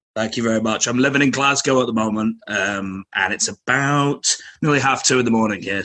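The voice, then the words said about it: Manchester English accent. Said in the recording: “your accent? Where are you from? ... Manchester.”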